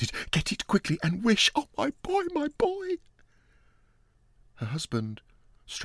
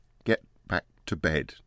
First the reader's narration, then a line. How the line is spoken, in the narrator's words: he said unsteadily